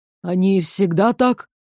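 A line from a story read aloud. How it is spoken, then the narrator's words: Admiring breathless exhale. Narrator (Russian): восхищенно выдохнул Дзьер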